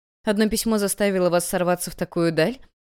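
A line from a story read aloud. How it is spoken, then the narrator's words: Mocking. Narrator (Russian): Насмешливо сказала Эбигейл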